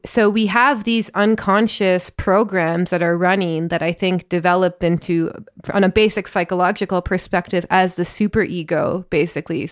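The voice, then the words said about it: Northern Ontario Canadian accent. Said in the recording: “I grew up in Northern Ontario and I see that in my accent all the time. I feel very Canadian sometimes”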